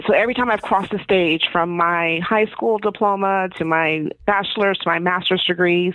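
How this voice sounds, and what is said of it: Emotional, choked-up voice. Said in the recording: “I'm sorry, I'm getting emotional”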